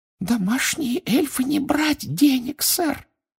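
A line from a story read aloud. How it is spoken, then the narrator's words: Muffled squeak. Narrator (Russian): приглушенно пропищала она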